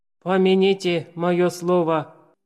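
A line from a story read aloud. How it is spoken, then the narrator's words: Grumbling. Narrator (Russian): проворчал Цицерон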